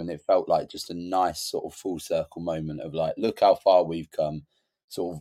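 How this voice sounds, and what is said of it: Slightly coarse, tired voice. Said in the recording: “my voice is a little bit coarse at the moment. I mean, I'm running on about 4 or 5 hours sleep”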